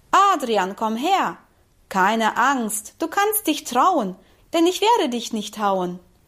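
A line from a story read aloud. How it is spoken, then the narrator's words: Called out. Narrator (German): Er ruft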